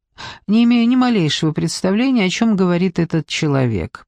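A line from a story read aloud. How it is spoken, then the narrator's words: Innocent tone. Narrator (Russian): произнесла Мэри совершенно невинным тоном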